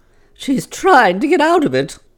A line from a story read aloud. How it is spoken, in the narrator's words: exclaimed Mrs